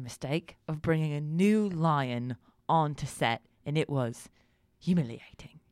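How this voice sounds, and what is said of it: Usual voice. Nothing is said of it.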